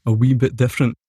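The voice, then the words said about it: Put-on Scottish accent. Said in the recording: “How do you do Scottish accent?”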